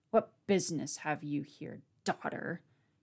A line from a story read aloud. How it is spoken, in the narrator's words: He spat out